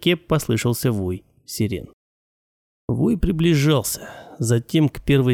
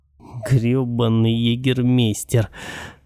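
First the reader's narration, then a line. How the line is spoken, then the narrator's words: Hissed through clenched jaw. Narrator (Russian): Сжимая скулы, процедил я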